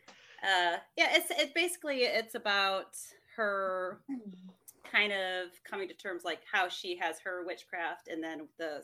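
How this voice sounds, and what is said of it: English-sounding accent. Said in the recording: “I'm not actually from England ... I know my accent sounds like it”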